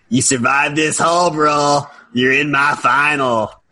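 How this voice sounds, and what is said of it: Imitates another person's voice. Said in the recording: “That's a great TJ impression.”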